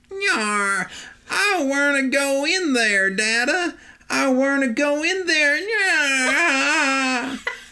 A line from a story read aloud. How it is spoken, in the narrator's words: a squeaking little voice could be faintly heard